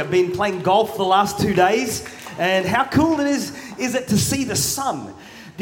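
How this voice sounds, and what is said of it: Australian accent. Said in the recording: “My accent is Australian ... my accent's Australian”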